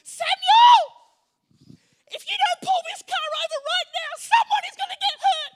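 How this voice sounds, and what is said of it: Angry nasally woman's voice. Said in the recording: “in her beautiful nasally voice, when she gets a little bit angry”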